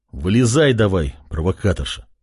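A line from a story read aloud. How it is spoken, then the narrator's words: Grumbling. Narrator (Russian): проворчал парень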